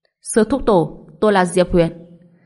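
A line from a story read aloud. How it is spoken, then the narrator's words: Loud laughing. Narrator (Vietnamese): Anh ta cười lớn nói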